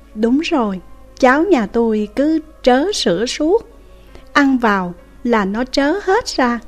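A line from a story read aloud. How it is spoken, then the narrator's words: A mother's rocking reply. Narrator (Vietnamese): Người mẹ được hỏi thì vừa đung đưa trả lời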